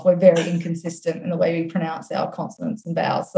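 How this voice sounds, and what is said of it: Australian accent. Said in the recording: “the cutest accent ... it's the only accent I can do ... I can't do the Australian one ... it's a tough accent to pull off”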